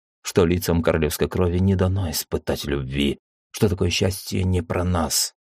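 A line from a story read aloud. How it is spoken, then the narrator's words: Quiet whisper. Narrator (Russian): тихо прошептал я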